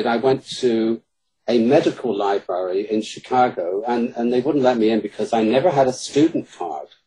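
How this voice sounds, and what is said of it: British accent. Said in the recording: “my British accent in Chicago works wonders”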